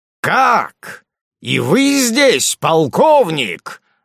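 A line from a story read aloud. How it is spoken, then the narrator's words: Shout. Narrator (Russian): закричал он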